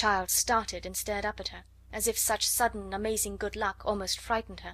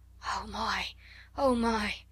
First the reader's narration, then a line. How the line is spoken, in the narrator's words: say hoarsely in wild delight